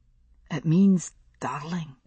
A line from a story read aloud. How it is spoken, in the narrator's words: he said softly